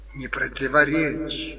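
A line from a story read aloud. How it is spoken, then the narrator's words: Mouthed whisper. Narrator (Russian): одними губами шепнул Берлиоз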